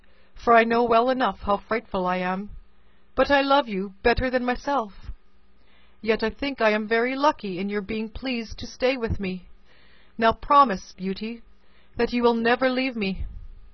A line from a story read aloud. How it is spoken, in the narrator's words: sighed the beast